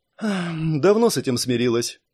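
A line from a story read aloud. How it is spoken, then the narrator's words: Girl's heavy sigh. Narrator (Russian): тяжело вздохнула девочка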